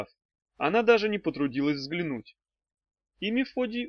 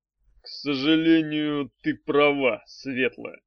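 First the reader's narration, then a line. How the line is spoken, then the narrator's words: Gloomy. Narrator (Russian): мрачно сказал Арей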